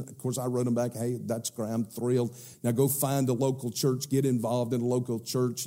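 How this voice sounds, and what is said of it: South Carolina accent. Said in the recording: “a South Carolina accent”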